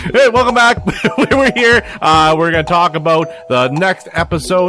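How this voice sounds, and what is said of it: Usual voice. Nothing is said of it.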